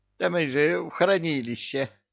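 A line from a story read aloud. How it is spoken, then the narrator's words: Imp snorting. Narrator (Russian): фыркнул бесенок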